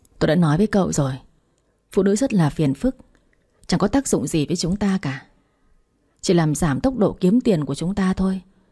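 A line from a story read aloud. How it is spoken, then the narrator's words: Sighing, mildly displeased. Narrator (Vietnamese): Hoàng Cảnh Châu thở dài rồi nói giọng hơi bất mãn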